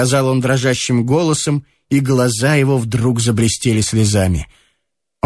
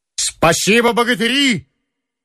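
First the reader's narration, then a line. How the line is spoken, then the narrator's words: Energetic shout. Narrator (Russian): энергично крикнул он роте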